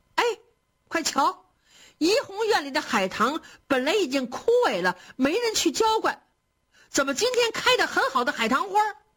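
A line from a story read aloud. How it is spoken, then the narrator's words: Clamorous shouting. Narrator (Chinese): 有人乱嚷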